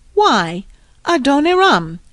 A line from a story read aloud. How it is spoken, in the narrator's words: exclaimed Mother Fisher in surprise